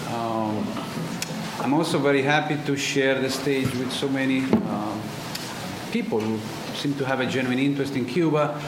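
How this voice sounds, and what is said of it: Italian accent. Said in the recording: “As you can hear from my accent, I'm not American, so I was born in Italy, born and raised.”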